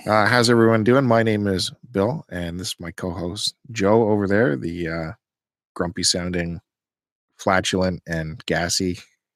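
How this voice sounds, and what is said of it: Radio announcer voice. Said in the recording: “talking like a radio announcer ... your radio voice”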